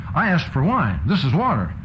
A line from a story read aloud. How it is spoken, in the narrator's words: he exclaims